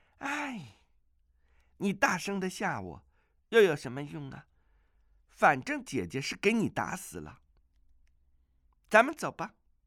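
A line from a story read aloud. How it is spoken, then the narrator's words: Sighing. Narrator (Chinese): 阿紫叹道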